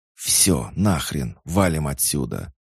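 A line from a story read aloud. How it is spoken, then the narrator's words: Urgent hiss. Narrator (Russian): зашипел Айван, успевший понять, что еще минута, максимум две, и живых на блокпосте не останется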